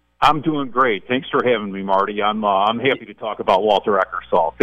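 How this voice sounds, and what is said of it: Chicago accent. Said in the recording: “I love that Chicago accent”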